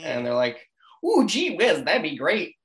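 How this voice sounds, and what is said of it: 1950s newspaper boy greaser voice. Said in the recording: “I'm trying to go for like 1950s newspaper boy mixed with like just coming on a little bit of greaser ... Italian Irish New Jersey kids I don't really know how to do a really good Hoboken accent”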